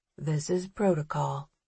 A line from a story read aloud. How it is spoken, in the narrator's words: he says quietly, even though we're alone in the hall